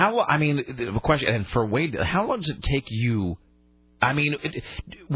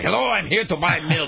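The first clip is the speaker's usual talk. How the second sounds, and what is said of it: Put-on German accent. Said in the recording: “just talking like a German guy all the time”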